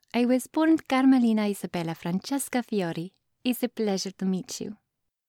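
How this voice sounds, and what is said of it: Attractive accented character voice. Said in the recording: “how ridiculously attractive your accent is ... I have heard some nice things about my accent ... I can still enthrall some mortals with my voice”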